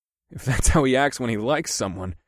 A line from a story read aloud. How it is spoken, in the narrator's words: I chuckled